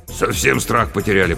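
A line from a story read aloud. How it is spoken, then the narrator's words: Grumbling. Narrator (Russian): проворчал Батяня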